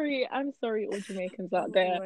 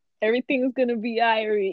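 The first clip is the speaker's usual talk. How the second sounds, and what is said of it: Bad put-on Jamaican accent. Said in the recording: “We're referencing Brad Pitt's accent in, I think the movie's Meet Joe Black? Jamaican. ... My ears are bleeding.”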